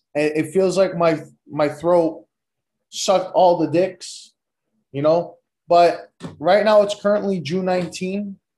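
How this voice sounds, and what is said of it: Worn-out, strained hoarse voice. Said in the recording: “My voice is shot.”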